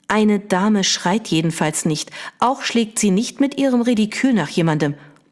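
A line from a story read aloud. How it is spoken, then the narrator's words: Sharp interruption, mother. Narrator (German): unterbrach ihre Mutter sie scharf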